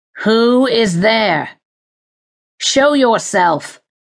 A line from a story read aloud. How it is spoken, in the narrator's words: he called again, his voice raising harshly with the command